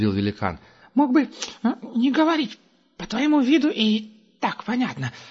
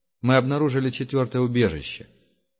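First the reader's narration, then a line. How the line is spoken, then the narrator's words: Deliberately indifferent tone. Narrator (Russian): нарочито безразличным тоном заметил Герман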